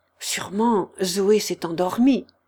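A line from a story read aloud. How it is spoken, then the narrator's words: Hushed, uncertain. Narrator (French): dit Marianne en n'entendant aucun bruit, pas un souffle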